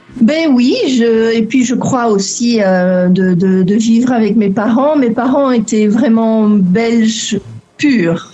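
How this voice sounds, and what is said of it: Slight Belgian French accent. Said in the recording (French): “on entend ... un petit accent belge qui traîne dans le fond ... ton petit accent”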